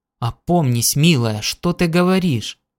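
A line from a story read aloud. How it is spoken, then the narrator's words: Startled protesting exclamation. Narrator (Russian): Он вздрогнул и протестующе воскликнул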